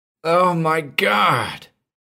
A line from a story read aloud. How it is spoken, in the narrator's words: The shriek came more clearly to the general office through the open door